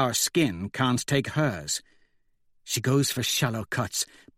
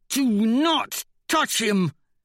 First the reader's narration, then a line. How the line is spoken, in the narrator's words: Mustang hisses